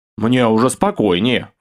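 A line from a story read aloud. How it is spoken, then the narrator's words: Snorted reply. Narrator (Russian): фыркнул я в ответ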